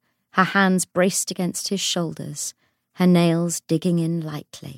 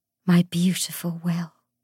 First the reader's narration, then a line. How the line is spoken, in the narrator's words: she said, her voice husky with desire